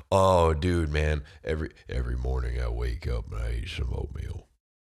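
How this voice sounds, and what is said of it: Deep, manly imitated voice. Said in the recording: “Sam Elliott ... I hope my voice is that deep and like manly when I'm old ... I just get it all down here ... making my S's in like the middle of my mouth”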